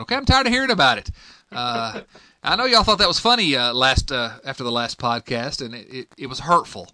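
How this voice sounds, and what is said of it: Strong Southern US accent. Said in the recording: “this ridiculous accent that I've got ... Bill can barely understand what I'm saying ... I speak Southernese”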